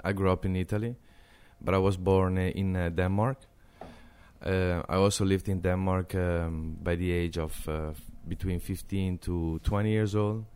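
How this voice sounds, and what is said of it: Italian accent. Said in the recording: “I have an Italian accent.”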